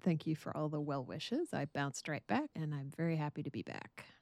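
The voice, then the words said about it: Voice sounds slightly off, unwell. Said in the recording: “my voice sounds a little weird”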